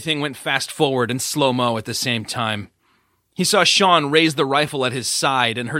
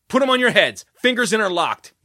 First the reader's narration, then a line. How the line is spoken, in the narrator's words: Jesse barked